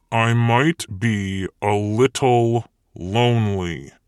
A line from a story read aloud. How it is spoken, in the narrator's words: he said through gritted teeth